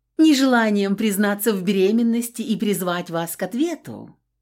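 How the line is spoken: Snide, sarcastic. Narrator (Russian): ехидно уточнила Рина

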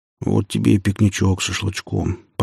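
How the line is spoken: Contented mutter. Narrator (Russian): пробормотал Василий

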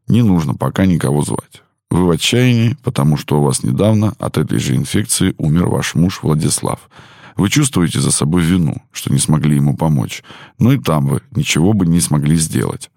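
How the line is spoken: Quiet. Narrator (Russian): тихо сказал

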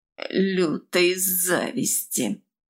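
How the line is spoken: Through gritted teeth. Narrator (Russian): процедила Хайда

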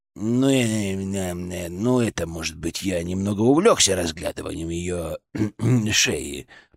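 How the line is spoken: Mumble. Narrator (Russian): пробормотал он

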